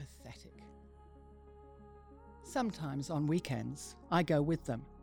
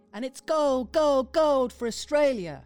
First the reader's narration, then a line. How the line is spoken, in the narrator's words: they put their arms in the air and shout